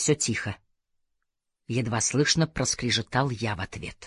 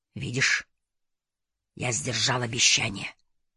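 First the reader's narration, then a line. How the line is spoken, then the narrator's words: Whisper. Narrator (Russian): прошептал Абдулла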